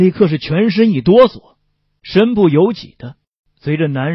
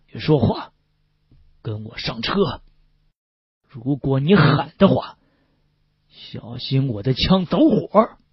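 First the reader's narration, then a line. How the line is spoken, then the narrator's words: Low, menacing man. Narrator (Chinese): 男人低声说道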